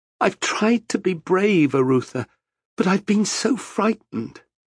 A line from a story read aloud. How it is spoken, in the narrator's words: Sobs shook her as she said